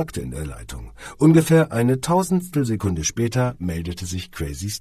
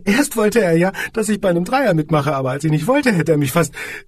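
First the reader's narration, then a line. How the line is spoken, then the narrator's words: Giggling. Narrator (German): fügte sie kichernd hinzu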